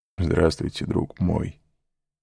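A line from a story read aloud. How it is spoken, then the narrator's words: Smiling through tears. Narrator (Russian): сказал хозяин, невольно улыбнувшись сквозь слезы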